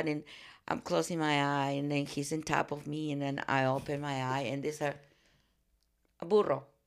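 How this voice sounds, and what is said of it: Foreign accented English. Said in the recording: “my accent”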